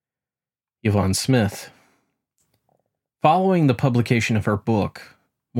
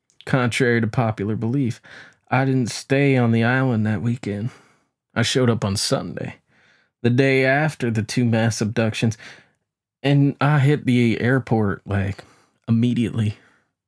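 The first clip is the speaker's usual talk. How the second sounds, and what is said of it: Poor imitation of another person's voice. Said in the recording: “terrible, terrible impression”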